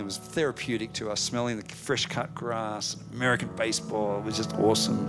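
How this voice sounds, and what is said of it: Australian accent. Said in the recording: “she hears our accent ... we're from Australia”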